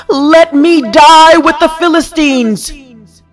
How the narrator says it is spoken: he pushed against them and shouted

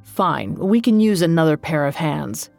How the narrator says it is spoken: he said gruffly

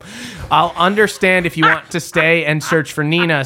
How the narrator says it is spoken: says Andrew

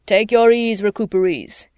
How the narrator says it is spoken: grinned and boomed

